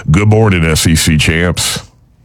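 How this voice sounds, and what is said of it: Poor imitation of another person's voice. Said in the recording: “in my best Carl voice... That wasn't very good... That was bad”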